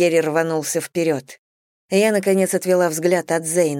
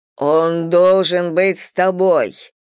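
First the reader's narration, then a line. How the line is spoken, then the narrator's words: Growling. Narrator (Russian): прорычал Тьерри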